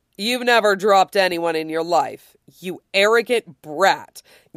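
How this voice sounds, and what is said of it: Sarcastic drawl. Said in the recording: “in a drawl sarcastic enough to salt the rim of a margarita glass”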